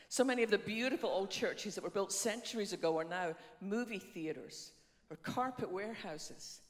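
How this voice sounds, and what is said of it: Scottish accent. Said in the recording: “my funny accent ... I was born on the west coast of Scotland”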